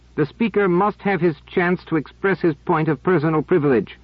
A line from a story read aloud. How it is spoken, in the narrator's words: He cried